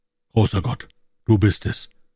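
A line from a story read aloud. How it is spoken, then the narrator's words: Gasping. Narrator (German): keuchte John Ferrier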